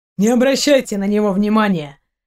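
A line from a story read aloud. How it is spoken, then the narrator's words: Snorting, dismissive. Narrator (Russian): хмыкнул Дима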